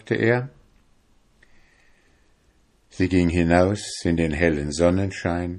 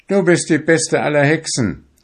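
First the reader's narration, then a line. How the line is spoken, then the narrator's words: Young fisherman exclaiming. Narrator (German): rief der junge Fischer aus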